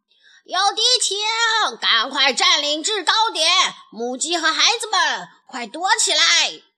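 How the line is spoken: Loud alarmed shouting. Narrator (Chinese): 卢兹佩罗高声喊道

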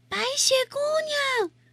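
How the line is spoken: Repeated calling. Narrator (Chinese): 他们喊了又喊，叫着她的名字

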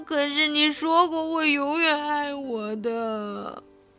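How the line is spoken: Crying. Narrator (Chinese): 阿丽哭着说

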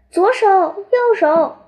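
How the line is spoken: Yelling. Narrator (Chinese): 弯子朝长高人大叫着

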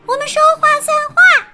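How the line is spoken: Loud answer. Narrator (Chinese): 茉莉大声回答

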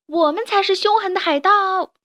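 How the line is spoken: Shouting. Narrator (Chinese): 他们大叫

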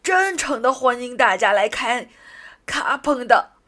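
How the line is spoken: Loud announcement. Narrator (Chinese): 他大声的宣布

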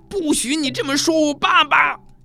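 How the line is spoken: Angry cry. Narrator (Chinese): 卡梅利多愤怒地

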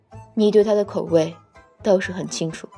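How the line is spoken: Low voice. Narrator (Chinese): 听他低声道

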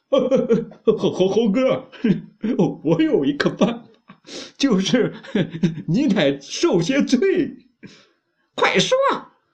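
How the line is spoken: Laughing. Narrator (Chinese): 八戒笑的说

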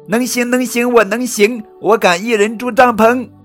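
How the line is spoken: Loud. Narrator (Chinese): 瑞奇大声说

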